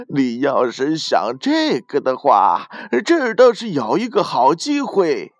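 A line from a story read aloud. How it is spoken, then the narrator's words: Laughing loudly. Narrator (Chinese): 店主……大声的笑了起来，然后说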